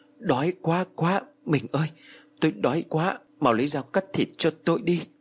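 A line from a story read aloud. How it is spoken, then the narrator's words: Panting soft voice. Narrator (Vietnamese): Ông Phú thở hổn hển rồi khẽ nói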